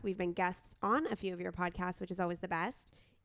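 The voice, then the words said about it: Hoarse, nearly lost voice. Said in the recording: “I apologize for my voice. It has been lost for an entire week.”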